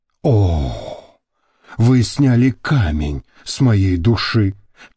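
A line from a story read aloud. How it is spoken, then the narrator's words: Languid sigh. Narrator (Russian): томно вздохнула Мириам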